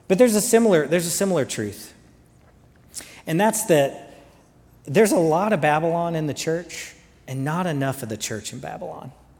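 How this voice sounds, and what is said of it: Lingering Southern US accent. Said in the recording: “there's some Southern accent in there. Do you hear it? You can hear it, especially when I say things like Sprite, night, light, lot. It really, really hangs in there.”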